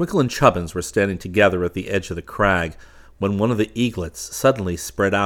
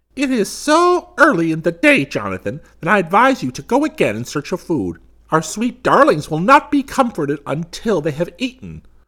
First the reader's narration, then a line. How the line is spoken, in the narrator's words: the mother only laughed in her harsh voice and said